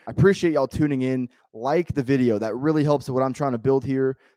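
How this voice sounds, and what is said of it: Strained, worn-out hoarse voice. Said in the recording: “My voice is kind of shot if you can't already hear ... struggling with the voice”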